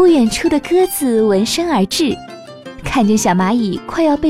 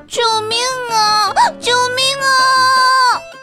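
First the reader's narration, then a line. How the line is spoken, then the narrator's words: Loud straining shout. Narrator (Chinese): 小蚂蚁 使出全身的力气，高声大喊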